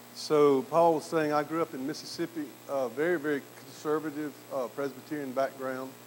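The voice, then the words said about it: Southern US accent. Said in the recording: “a Mississippi theologian ... he's still got his southern accent.”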